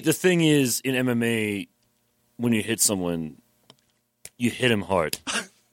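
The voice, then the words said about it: Imitates another person's voice. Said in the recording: “hear my Joe Rogan impression”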